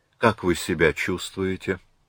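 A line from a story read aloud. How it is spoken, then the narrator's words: Soft question. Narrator (Russian): мягко спросил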